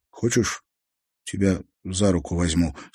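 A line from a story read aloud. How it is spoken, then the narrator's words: Plain. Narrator (Russian): спросил Олег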